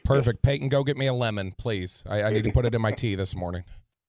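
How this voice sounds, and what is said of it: Hoarse, strained lost voice. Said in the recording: “hoarse voice... He lost his voice... My voice is shot... lost your voice from the game”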